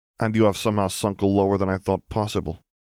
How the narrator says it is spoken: Fedorov spat

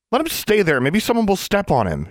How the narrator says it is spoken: she squeaked

